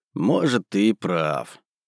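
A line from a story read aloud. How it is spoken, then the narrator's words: Thoughtful drawl. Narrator (Russian): задумчиво протянул я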